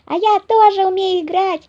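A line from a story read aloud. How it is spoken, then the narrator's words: Small child squealing. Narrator (Russian): завопил малыш Пер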